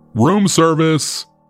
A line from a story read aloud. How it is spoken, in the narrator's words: called out